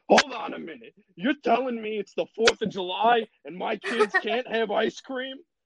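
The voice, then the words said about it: Angry Italian dad voice. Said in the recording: “That's what he sounded like. It's just an angry dad ... doing an impression of my dad when he's angry ... doing the Italian dad.”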